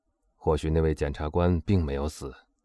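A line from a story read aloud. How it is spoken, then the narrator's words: Low voice. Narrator (Chinese): 他低声接着说道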